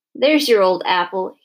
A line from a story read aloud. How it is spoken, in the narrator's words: he said, laughing